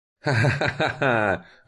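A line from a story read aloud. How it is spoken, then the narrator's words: Mad laughter. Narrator (Russian): расхохотался безумным смехом мужчина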